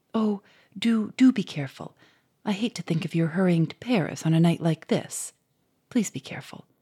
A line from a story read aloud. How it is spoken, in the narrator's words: she said anxiously in a low voice